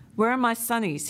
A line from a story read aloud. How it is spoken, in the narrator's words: he asked